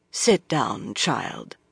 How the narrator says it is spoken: she said gravely

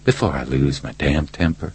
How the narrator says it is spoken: Reacher said quietly

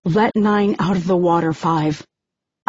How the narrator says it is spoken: I say, trying to keep my voice level, as far from panic as possible

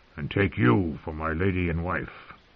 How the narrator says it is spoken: the dwarf replied hoarsely

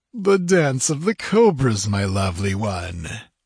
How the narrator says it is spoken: laughed Totrasmek

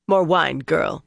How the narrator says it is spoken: she said curtly

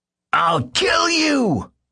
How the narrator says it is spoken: he shouted

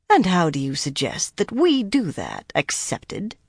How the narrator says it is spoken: Shiriam asked coolly

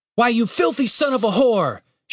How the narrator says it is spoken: shouted Henderson

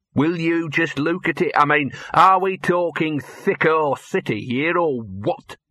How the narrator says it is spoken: sneered Gaspard

